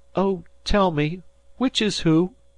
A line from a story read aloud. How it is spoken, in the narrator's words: said she, half sobbing